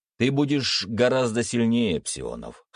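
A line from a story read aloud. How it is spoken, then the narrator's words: Chuckle. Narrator (Russian): хмыкнул Виктор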